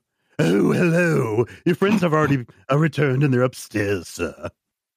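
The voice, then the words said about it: Put-on character voice. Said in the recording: “I'm only here because I like doing this voice.”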